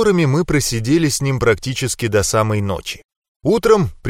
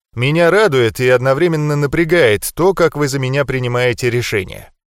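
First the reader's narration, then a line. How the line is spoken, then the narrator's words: Wry snort. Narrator (Russian): хмыкнул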